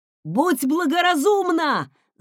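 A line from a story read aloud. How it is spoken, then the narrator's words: Shouting. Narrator (Russian): закричал Марсель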